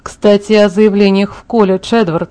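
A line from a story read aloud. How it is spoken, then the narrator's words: Gloomier sullen tone. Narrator (Russian): сказал Чарли еще более угрюмым тоном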